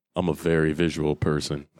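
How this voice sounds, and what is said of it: Unusually deep voice. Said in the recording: “I almost sound like Annie McDowell there with a deep voice. That was weird.”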